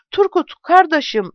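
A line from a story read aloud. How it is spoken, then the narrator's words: Shouting. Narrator (Turkish): diye bağırdı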